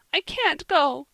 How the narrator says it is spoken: she sobbed

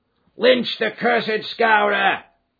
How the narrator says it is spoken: they cried

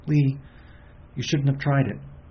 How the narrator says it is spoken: she said anxiously

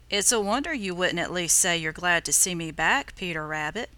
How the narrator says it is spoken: said the voice

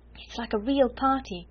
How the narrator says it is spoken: cried Ermengarde

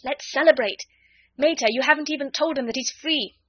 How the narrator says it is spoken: Ring cried

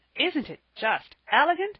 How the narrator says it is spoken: said Percy, in the most pleased tone

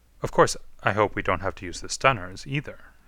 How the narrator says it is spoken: he said calmly

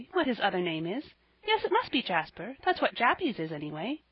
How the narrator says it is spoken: she added with a little laugh

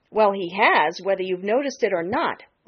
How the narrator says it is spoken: retorted Jenny Wren sharply

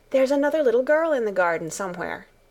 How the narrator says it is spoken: Alice asked eagerly

